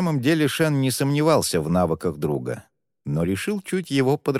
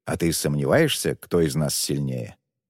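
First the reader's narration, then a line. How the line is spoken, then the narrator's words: Quiet displeased snort. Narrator (Russian): недовольно тихо фыркает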